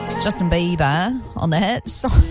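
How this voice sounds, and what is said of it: Strong New Zealand accent. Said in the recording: “my Kiwi accent came out real strong then, didn't it? Real strong.”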